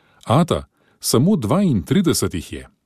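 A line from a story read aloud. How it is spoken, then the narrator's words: Excited shout, boy. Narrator (Slovenian): Patrick Burns je zakričal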